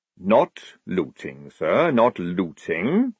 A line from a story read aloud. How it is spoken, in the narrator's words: said Jackram calmly, licking his spoon